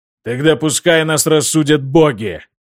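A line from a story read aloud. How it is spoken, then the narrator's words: Growled. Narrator (Russian): прорычал Магнус Гром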